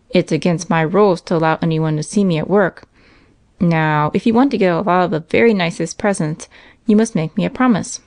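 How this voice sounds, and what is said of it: Stern voice. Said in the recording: “in a rather stern voice”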